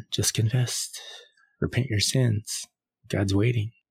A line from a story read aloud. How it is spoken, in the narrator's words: Aaron whisper